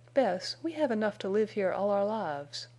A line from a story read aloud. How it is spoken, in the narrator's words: said dreamily